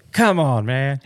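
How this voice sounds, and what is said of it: Imitates another person's voice. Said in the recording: “to quote another president ... It's not a bad impression.”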